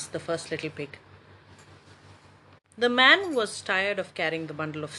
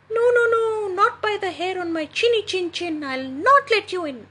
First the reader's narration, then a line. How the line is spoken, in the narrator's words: squeaked the first little pig